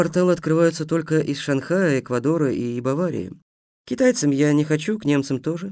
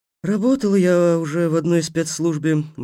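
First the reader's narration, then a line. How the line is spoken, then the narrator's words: Gloomy. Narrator (Russian): мрачно сказала ведьма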